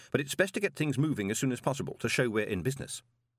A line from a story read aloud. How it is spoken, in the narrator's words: said Moist quickly